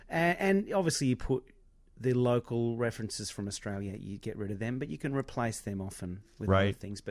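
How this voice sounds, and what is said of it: Australian accent. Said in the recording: “we grew up in Australia hearing American accents ... The Australian accent is still reasonably, you know, foreign to your ears”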